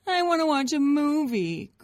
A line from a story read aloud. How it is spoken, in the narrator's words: Grace whined